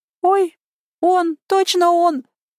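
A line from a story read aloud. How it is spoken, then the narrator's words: Nasty shrill squeak. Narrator (Russian): противно запищала она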